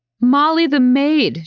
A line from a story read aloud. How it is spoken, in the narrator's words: she roared